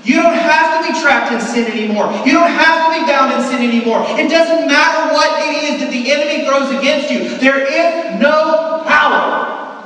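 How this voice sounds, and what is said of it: Loud yelling preaching voice. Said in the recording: “I'm spitting, I'm sorry. ... I'm yelling too hard.”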